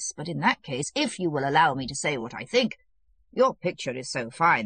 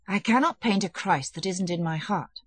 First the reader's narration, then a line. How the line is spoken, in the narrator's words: said Mikhailov gloomily